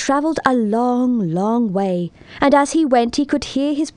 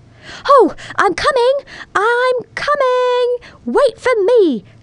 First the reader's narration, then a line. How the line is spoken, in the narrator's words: cried our little drop of rain